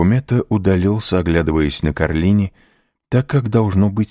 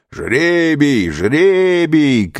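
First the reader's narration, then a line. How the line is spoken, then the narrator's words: Shouting crowd. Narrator (Russian): кричали разбойники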